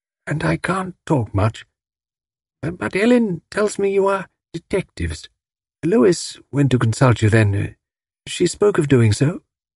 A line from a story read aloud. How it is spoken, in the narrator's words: said faintly